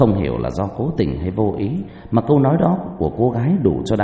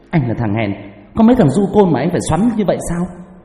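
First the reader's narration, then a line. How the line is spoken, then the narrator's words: Loud scolding shout. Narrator (Vietnamese): cô gái lại to mồm quát lớn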